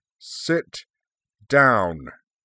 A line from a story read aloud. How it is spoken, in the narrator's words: he boomed